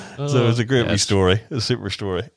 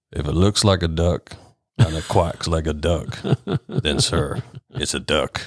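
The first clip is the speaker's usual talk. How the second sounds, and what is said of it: Deep put-on southern drawl. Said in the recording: “in a very, very deep southern drawl ... It's actually not a bad southern accent”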